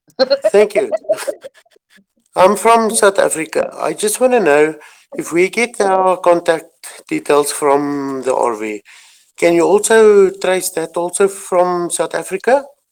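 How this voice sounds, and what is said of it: South African accent. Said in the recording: “Wow, what an awesome accent.”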